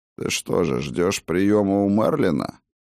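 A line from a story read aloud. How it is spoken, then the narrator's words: Cold question. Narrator (Russian): Холодно осведомился странный пришелец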